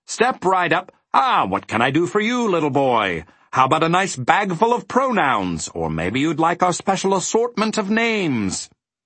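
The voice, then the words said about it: Booming salesman character voice. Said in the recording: “announced one man in a booming voice”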